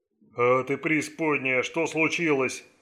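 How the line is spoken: Bark. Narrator (Russian): рявкнул Дилри

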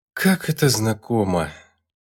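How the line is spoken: Sighing. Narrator (Russian): вздохнула лаванда

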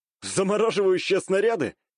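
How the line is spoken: Wry snort. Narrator (Russian): хмыкнул я

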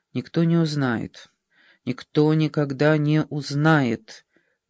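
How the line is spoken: Muttering to herself. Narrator (Russian): бормотала она про себя

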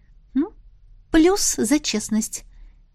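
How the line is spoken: Quiet remark. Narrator (Russian): негромко отметила я

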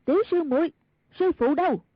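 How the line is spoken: Cry out. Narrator (Vietnamese): Mai Siêu Phong kêu lên

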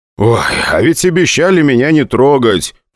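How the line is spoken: Grumbling. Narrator (Russian): проворчал я

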